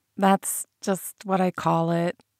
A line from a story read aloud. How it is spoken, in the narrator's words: muttered sheepishly